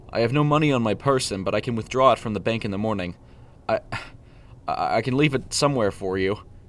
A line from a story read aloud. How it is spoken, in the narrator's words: Preston stammered, sweat dripping off his forehead